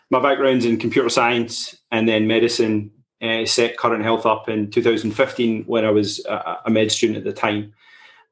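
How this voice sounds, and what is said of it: Scottish accent. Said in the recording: “I have this crazy, weird accent. I'm not an American. ... I'm originally from Scotland in the UK”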